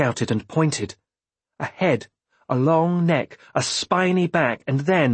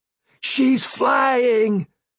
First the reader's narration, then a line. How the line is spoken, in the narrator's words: Althea cried, and her joy